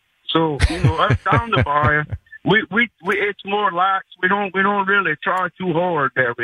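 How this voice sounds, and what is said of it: Cajun Louisiana accent. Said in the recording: “I love this accent. ... I'm going to work on my Cajun. That's a cool accent.”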